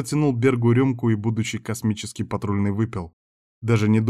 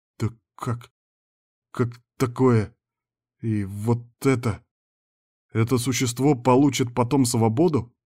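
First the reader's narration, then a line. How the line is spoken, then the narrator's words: Frightened question. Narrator (Russian): испуганно спросил Берг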